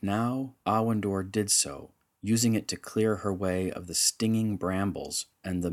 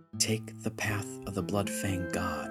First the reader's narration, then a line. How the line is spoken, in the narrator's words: she whispered